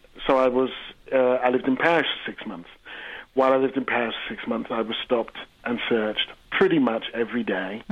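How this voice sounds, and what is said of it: English accent. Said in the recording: “I grew up in England, you probably guessed by the accent”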